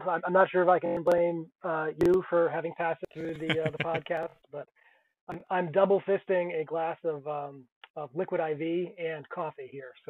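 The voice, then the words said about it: Voice of someone with a cold. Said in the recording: “I have a cold.”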